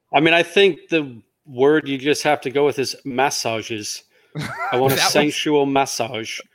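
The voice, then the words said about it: English-accented impression of a coach. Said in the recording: “can you give us your best English accent? ... I need somebody to impersonate Coach Dirty”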